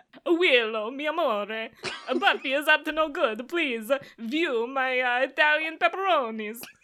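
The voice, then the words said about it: Put-on Italian accent. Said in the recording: “Now say it with an Italian accent ... Wow. That was amazing. You could be a voice actress. ... I'm sorry to the country of Italy”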